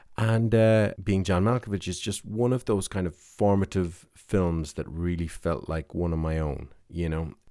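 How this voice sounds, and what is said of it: Irish accent. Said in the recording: “I'm living in Ireland, as you've probably guessed from the accent”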